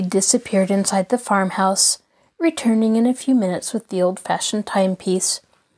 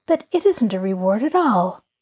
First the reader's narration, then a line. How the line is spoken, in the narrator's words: she declared warmly